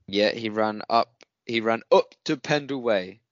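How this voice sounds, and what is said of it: Attempted northern English accent. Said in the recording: “That was me trying to do a northern accent.”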